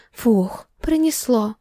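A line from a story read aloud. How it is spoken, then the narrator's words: Breathed out. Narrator (Russian): Выдохнула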